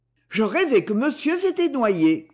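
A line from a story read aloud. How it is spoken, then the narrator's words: Exclaiming. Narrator (French): s'écria-t-il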